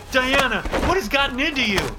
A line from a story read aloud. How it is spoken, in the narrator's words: Joe shouted